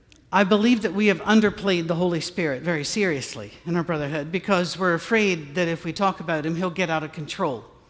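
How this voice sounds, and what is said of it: Scottish accent. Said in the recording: “Being the non-emotional Scot that I am ... I love your accent ... we wish we had your accent”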